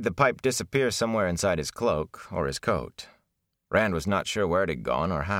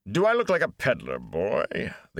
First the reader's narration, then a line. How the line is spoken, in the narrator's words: the Gleeman grumbled